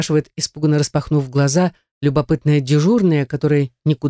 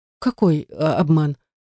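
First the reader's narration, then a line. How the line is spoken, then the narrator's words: Timid question. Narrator (Russian): спрашиваю робко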